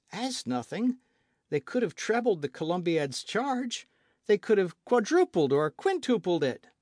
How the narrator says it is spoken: exclaimed Michel, with whom the verb took a higher intonation each time

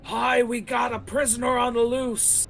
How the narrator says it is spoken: he yells

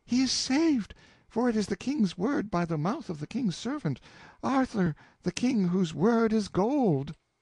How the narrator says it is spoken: the woman in a most surprising explosion of joy, and cried out

